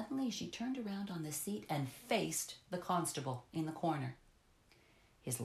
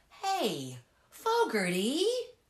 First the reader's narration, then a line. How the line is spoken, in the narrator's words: shouted the chemist's son